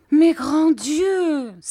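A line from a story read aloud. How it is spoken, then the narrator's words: Mother exclaiming. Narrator (French): s'écriait ma mère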